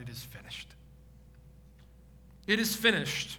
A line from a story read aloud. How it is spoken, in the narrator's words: Jesus cries out